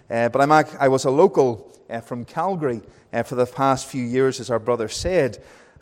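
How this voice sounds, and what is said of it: Northern Irish accent. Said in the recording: “with my accent, it was the same. They thought I was a tourist ... I went from being Northern Irish to Welsh to English and back to being Northern Irish.”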